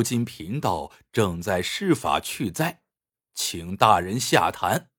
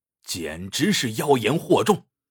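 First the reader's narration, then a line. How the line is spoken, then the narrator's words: Calm, unruffled. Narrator (Chinese): 道士却面不改色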